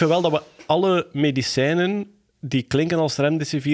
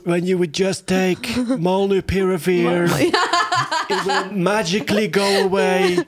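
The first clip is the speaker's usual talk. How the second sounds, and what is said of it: Trump impression with British-sounding accent. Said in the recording (Dutch): “als in een Trump-stem moeten uitspreken ... I don't know why Trump has a British accent now”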